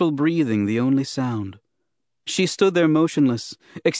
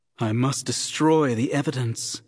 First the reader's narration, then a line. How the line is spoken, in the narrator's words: she breathed to herself